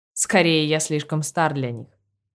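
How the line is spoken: Snorting. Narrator (Russian): хмыкнул Витер

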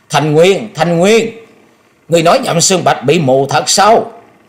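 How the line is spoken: High shrill shriek. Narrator (Vietnamese): cao giọng hét lên thè thé nói

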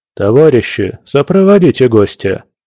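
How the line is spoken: Commanding order. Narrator (Russian): приказал часовым секретарь

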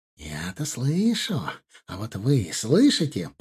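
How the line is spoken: Hissing. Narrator (Russian): прошипел тот

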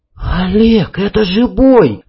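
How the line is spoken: Breathless. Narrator (Russian): выдохнула Танюшка

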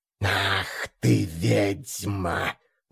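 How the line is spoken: Angry hiss, creature. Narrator (Russian): Зло прошипела тварь

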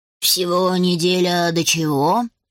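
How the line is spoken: Soft purr. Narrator (Russian): раздалось негромкое мурлыканье

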